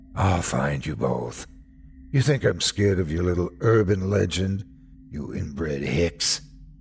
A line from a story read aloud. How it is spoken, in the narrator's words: He laughed, deep and raspy